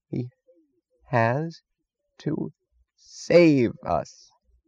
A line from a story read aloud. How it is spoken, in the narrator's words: said Mooch slowly, as if straining the last of his mind into blankness and delivering an ultimatum to reality